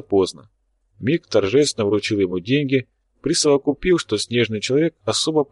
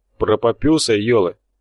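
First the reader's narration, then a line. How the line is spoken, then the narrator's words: Tactless snort. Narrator (Russian): хмыкнул не отличавшийся деликатностью Тхар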